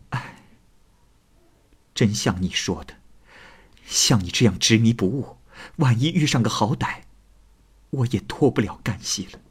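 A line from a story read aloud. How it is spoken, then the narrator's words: Sighing. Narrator (Chinese): 莲香于是叹息着说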